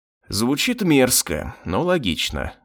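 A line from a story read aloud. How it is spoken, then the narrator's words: Sigh. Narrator (Russian): вздохнул я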